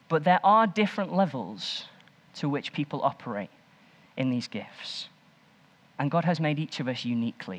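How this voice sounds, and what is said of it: Stoke-on-Trent English accent. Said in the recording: “a Stokey accent”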